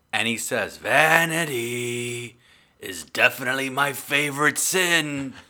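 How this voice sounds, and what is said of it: Imitates another person's voice. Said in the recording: “Like my Pacino impersonation? ... I nailed it. It's okay. I could do better.”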